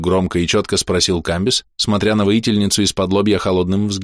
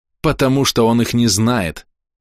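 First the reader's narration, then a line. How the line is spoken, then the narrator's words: Snapped. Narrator (Russian): огрызнулась она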